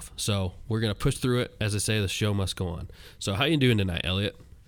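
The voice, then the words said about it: Gruff, congested voice from a cold. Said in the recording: “Got a cold, got a Kleenex shoved up my nose right now... my voice is a little gruff”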